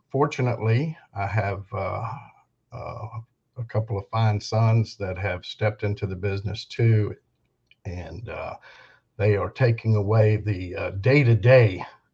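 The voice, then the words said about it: Southern American accent. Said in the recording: “by the dialect. He is in the Carolinas”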